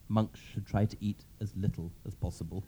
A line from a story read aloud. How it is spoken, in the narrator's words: said Father Theophanes quietly